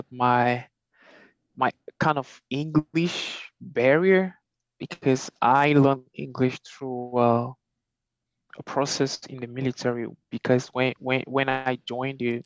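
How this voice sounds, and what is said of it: Thick non-native English accent. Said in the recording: “You have a thick accent ... Somebody who listens to you will go, oh, you're not from here.”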